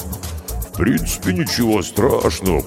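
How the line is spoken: Booming drone. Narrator (Russian): прогудел Карков

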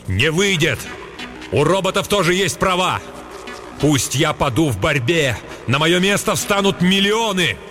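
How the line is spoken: Shouted. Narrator (Russian): крикнул

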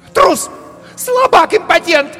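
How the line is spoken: Shrill shriek. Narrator (Russian): завизжала она

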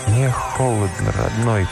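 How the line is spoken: Hoarse, barely recognizable voice. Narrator (Russian): прохрипел в душной тишине субтропической ночи с трудом узнаваемый голос

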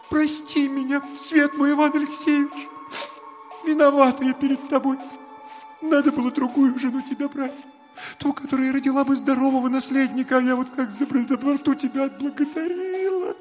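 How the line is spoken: Anguished sobbing. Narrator (Russian): Наталья, закусив страдальчески губу, … всхлипывая

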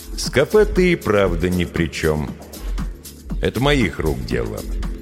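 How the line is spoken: Calm. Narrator (Russian): спокойно сказал Никита

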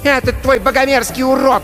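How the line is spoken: Woman shouting angrily. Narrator (Russian): кричала на Кристофера Мэгги

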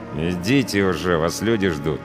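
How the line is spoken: Through gritted teeth. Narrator (Russian): процедил сквозь зубы пограничник

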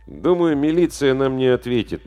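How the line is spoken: Gloomy. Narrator (Russian): мрачно сказал Димка

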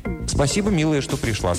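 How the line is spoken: Plain. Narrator (Russian): сказал Харрис

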